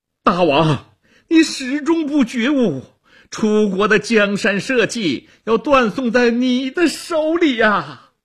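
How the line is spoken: Straining loud shout. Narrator (Chinese): 屈原挣扎着高喊

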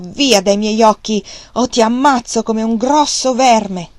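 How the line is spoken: Shouted. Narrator (Italian): Questo gridò Wang Lung

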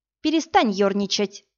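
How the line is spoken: Irritated snap. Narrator (Russian): раздраженно бросила Иви

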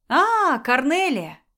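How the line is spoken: Deliberately cheerful. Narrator (Russian): нарочито радостно сказала Беата

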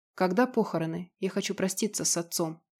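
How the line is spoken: Quiet. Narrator (Russian): негромко произнесла Бажена

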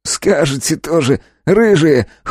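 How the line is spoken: Snort, man. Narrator (Russian): хмыкнул мужчина

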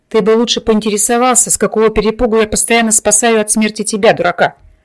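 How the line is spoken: Snorting, mocking. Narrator (Russian): хмыкнул призрак

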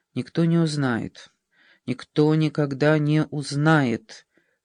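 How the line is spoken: Muttering to herself. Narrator (Russian): бормотала она про себя

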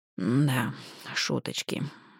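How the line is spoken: Gloomy drawl. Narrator (Russian): мрачно протянул

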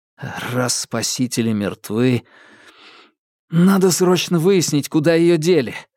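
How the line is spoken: Relieved gruff mutter. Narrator (Russian): буркнул он, радуясь, что есть чем занять мозг и отвлечься

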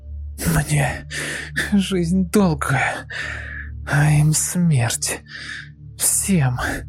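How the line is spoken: Exhausted tearful hateful whisper. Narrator (Russian): Лиска без сил … из последних сил, заливая слезами ненависти, прошептала

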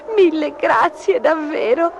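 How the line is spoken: Sobbing. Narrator (Italian): singhiozzò

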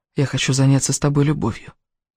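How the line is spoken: Hoarse whisper. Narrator (Russian): хриплым голосом прошептал

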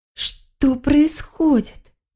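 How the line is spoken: Weak groan. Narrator (Russian): Простонала Келлиэр

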